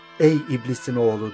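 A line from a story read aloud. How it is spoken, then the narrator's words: Plain. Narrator (Turkish): dedi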